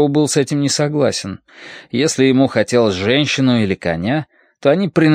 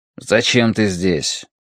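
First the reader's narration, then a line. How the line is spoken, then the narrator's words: Grumbled. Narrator (Russian): проворчал он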